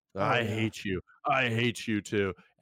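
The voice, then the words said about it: Impression of Chuck Bass. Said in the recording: “Sound like Chuck there in your impression.”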